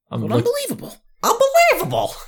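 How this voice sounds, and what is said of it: Imitates another person's voice. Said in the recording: “That's my impression of Bill Burr hosting the new Ripley's Believe It or Not”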